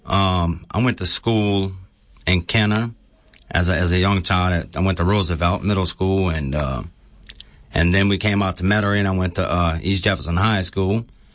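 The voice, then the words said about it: New Orleans-area Kenner accent. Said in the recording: “most people who would hear you talk think that you might come from down the bayou ... the accent I'm listening to is kind of like Kenner, brah”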